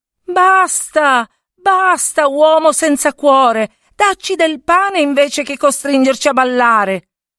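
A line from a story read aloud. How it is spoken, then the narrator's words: Furious woman shouting while dancing. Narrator (Italian): la moglie del mugnaio che danzando gridava furibonda al marito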